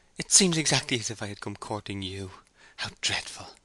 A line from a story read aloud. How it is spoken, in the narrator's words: she said with a slight laugh